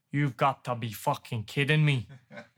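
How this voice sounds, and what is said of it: Strong Irish accent. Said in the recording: “In like a real strong Irish accent.”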